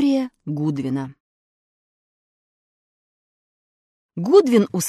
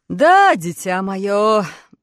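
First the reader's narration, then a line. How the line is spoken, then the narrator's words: Sighing. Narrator (Russian): вздохнул Гудвин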